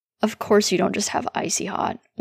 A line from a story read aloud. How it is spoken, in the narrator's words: Will mutters